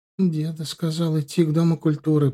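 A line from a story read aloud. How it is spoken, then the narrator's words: Miserable near-moan. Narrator (Russian): почти простонала несчастная Марина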